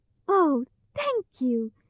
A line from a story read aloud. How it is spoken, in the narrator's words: cried Dorothy happily